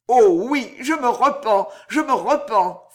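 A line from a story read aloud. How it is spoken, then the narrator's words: Exclaimed. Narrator (French): s'écria Danglars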